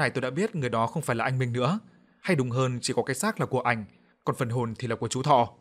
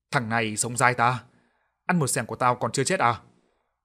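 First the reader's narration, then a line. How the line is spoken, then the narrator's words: Hoarse hiss through teeth. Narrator (Vietnamese): một giọng nói khàn đục rít lên qua kẽ răng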